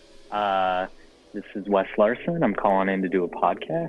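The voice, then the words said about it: Put-on podcast host voice. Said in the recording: “Practicing my podcast voice.”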